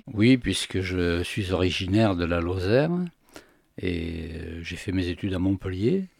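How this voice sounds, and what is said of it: Slight southern French accent. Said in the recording (French): “il y avait un petit accent méridional”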